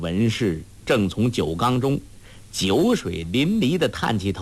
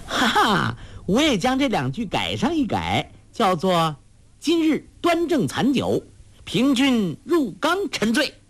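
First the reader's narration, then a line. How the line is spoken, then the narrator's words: Loud laughing cheer. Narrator (Chinese): 黄蓉大声喝彩，笑道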